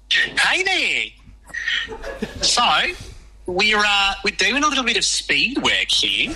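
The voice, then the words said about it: Convincing put-on New Zealand accent. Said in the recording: “put on an amazing New Zealand accent.”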